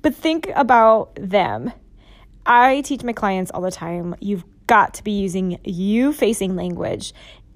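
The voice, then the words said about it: Hoarse voice. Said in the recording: “my voice is getting really hoarse”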